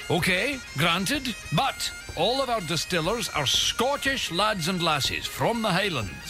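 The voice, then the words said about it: Put-on Scottish accent. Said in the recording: “Listen to my accent.”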